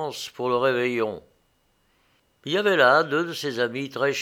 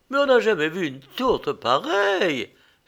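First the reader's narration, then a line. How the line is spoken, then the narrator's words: Exclaiming. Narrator (French): s'écria-t-elle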